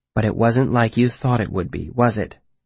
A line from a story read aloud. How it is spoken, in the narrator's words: Denna said, more gently this time